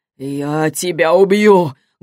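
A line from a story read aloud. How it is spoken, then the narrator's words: Hoarse, strained voice. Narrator (Russian): голос Морланда звучал хрипло после ее попытки сдавить ему глотку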